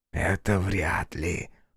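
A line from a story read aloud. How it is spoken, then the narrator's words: Whispered. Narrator (Russian): прошептал Фоя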